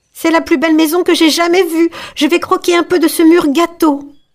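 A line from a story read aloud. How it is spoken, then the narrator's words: Exclamation. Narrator (French): s'écria Gretel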